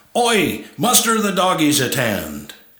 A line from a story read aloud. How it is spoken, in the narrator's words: the Aussie barked out orders to the rest of the pack